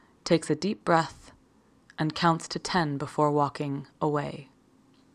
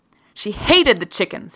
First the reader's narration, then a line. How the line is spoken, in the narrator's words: shouted